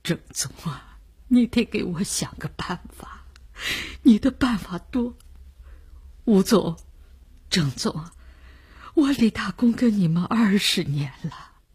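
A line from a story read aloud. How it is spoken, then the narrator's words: Crying. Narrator (Chinese): 李大公 哭了起来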